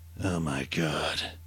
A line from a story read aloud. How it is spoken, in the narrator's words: Perry heard himself mutter in shock